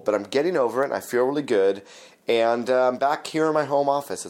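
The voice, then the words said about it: Slightly hoarse voice. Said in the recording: “my voice is just a little bit hoarse ... I sort of caught a little cold”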